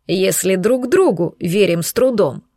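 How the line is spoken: Snorting. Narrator (Russian): хмыкнул Андреас

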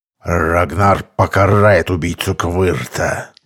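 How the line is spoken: Menacing promise. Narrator (Russian): грозно пообещал красавчик шаману

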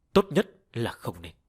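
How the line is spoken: Cold, convulsing. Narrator (Vietnamese): Thân thể Diêm Vương co giật kịch liệt, lạnh lùng nói

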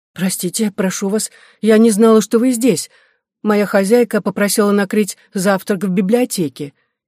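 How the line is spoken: Frightened reply. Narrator (Russian): испуганно отвечала Клара

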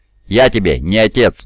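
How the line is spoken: Roared. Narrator (Russian): взревел Дорн

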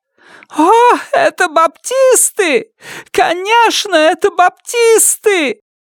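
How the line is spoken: Shrieking, then crying. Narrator (Russian): завизжала Бетси и снова заплакала

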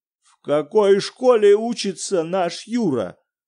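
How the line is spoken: Terrible voice. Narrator (Russian): спросил Виктор Петрович ужасным голосом

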